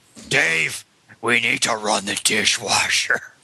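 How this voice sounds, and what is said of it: Batman-style character voice impression. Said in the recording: “my Christian Bale Batman impression ... that is the worst Newsies impression I've ever heard”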